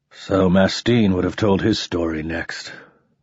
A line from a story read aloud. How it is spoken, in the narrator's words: muttered the consul